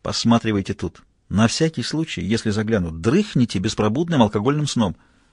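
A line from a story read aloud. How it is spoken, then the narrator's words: Whispered order. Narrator (Russian): шепотом распорядился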